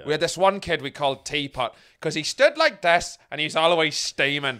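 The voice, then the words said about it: Put-on Northern Irish accent. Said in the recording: “I know it's annoying when posh people do a Northern Irish accent, but I feel it's warranted here”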